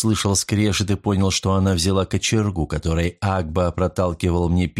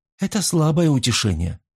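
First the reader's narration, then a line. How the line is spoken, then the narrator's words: Sad. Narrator (Russian): грустно ответила она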